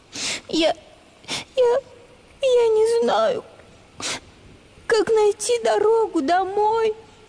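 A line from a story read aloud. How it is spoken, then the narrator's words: Tearful cow. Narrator (Russian): Сквозь слезы объяснила наша коровка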